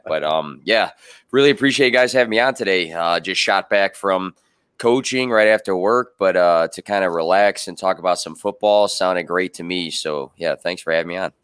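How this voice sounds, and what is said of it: Raspy, hoarse, gravelly voice. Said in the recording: “I'm still trying to get my voice back a little bit. It's a little raspy. I sound kind of like Batman from The Dark Knight or something like that ... You got the velvet voice now ... a little bit of a edgy voice on the mic”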